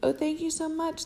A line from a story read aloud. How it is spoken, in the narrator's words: the beautiful girl exclaimed